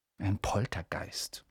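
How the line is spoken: Whisper. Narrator (German): flüsterte Percy den Erstklässlern zu

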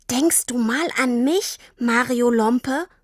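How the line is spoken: Angry hiss. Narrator (German): fauchte Tini

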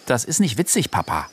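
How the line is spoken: Stern. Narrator (German): sagte Chayda streng

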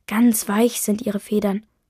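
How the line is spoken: Plain. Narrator (German): sagt

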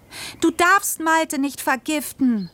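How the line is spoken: Screamed. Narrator (German): schrie ich

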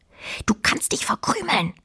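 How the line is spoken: Quiet hiss. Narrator (German): zischte Fine leise

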